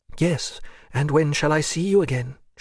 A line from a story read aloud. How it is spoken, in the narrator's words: she added with a sigh